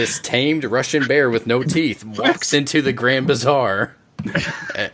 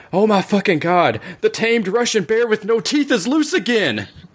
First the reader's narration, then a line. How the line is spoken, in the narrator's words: Philip the town mailman takes in a big breath of air and screams out